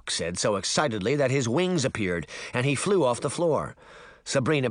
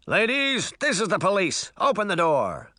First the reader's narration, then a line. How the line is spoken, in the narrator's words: the sheriff demanded through a megaphone in a tinny, amplified voice